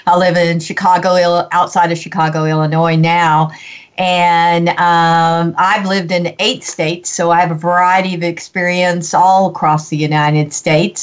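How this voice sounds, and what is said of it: Texan accent. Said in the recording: “I love your accent ... the accent comes from Texas, which is where I'm from originally”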